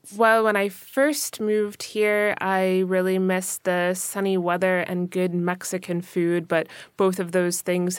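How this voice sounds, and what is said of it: North American accent. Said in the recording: “we now have a majority, at least for this podcast, of North American accents ... you're from California.”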